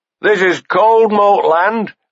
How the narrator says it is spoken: one shouted

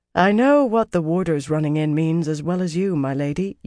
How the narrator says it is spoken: said in courtly accents, with clear reluctance

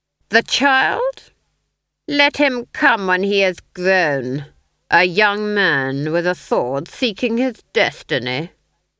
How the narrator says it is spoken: the Duke sneered

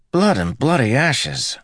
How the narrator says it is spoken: Matt exclaimed

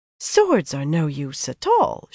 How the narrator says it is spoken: she said sweetly

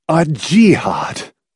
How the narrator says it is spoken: Clamp said excitedly

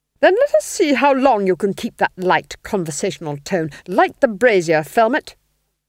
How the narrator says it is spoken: snapped

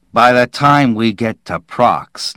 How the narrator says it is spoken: Nils snarled

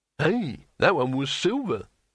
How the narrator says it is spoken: exclaimed Hrun

